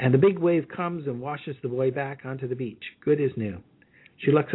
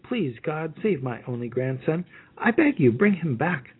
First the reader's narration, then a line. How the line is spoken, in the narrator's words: She pleads